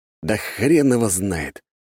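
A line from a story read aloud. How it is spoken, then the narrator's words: Sighing. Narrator (Russian): вздохнул я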